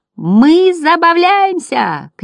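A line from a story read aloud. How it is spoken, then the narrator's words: Shout choking with laughter. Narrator (Russian): крикнул Бастиану первый мотылек, чуть не захлебываясь от смеха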